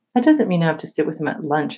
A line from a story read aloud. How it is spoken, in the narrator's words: I answered quickly, regretting that I had told anyone that Mr